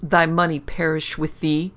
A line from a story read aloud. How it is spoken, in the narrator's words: rejoined Osiris furiously